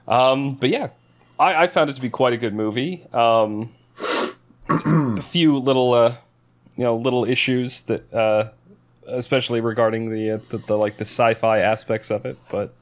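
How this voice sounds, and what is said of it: Speaks with a non-American accent. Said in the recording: “When I say Adam really quickly with my accent, it sounds like I'm putting a T in there.”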